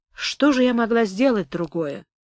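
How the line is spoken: Quiet question. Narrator (Russian): тихо спросила мама

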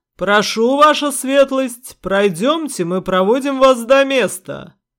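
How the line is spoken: Loud. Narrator (Russian): громко сказал Дворф

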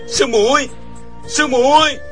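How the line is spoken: Terrified, choked voice. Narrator (Vietnamese): Chàng sợ hãi toàn thân run rẩy, giọng không thốt ra nổi

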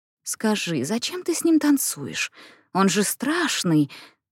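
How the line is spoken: Whispered in ear. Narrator (Russian): зашептала Джейн ей на ухо

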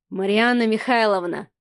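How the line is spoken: Sighing. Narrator (Russian): вздохнул Адмиралов

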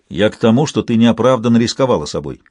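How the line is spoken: Sharp tone. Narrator (Russian): резким тоном поправился Кеннет

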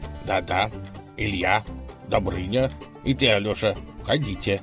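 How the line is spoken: Commanding. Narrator (Russian): повелел он

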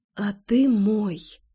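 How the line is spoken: Whispered reply. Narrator (Russian): ответный шепот

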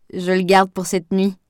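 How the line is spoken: Laughing. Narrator (French): précisa Aurore en riant

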